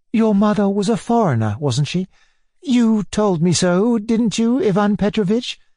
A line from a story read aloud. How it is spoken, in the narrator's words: the old lady persisted timidly